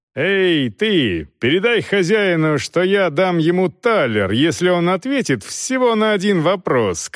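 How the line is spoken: Shout. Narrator (Russian): крикнул Волков

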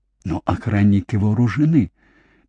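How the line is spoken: Quiet warning. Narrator (Russian): тихо предупредил Бенда

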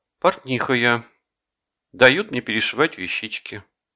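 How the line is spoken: Deep sigh. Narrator (Russian): вздохнула она глубоко

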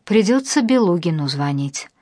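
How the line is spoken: Sighed. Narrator (Russian): вздохнул Леонид

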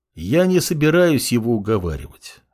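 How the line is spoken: Even, level tone. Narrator (Russian): ровным тоном ответил молодой бог

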